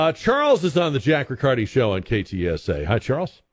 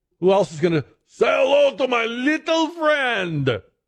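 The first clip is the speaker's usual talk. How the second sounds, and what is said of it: Bad impression of a movie actor. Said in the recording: “Worst impression ever.”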